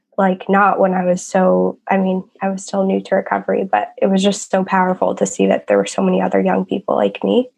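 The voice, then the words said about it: Rough, unwell-sounding voice. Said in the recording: “I'm sorry about my voice. I'm just getting over something.”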